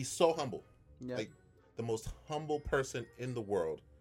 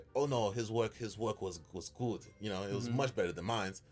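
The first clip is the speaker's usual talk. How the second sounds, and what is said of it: Poor imitation of Ukrainian accent. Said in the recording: “that's me trying to do a Ukrainian accent. I know it sucks.”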